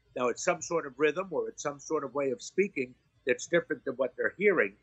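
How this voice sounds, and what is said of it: East Coast American way of speaking. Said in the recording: “I speak in this in this pattern. This is the way I talk. I have an East Coast uh, way of speaking. I don't like to think that it's New York or even Jewish ... Are you from Ireland? ... They think that I sound Irish ... I am certainly not Midwest in the way that I talk or bland”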